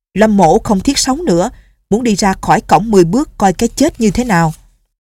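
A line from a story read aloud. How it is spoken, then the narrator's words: Loud barking shout. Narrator (Vietnamese): Lâm Chấn Nam cao giọng quát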